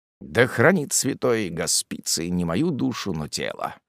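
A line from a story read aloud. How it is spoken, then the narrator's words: Fearful old man muttering. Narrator (Russian): пробормотал в страхе старик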